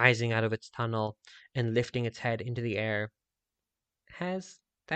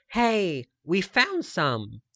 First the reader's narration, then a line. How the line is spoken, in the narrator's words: exclaimed